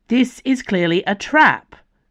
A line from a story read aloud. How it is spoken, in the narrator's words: Dio shouted